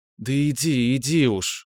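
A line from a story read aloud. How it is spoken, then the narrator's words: Pleased grumble. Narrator (Russian): проворчала она, довольная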